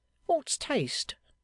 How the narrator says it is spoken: dryly retorted Panks

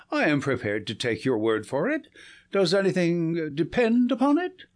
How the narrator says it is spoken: I said, laughing

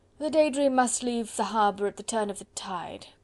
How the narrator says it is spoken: quoth Sir Percy thickly

